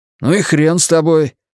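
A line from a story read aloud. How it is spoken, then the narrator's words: Nervous indignant exclamation. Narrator (Russian): воскликнул нервно и негодующе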